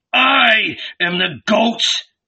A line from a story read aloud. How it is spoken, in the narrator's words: murmured